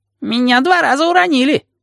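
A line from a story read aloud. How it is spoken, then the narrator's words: Squeaked. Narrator (Russian): пискнул Вонючка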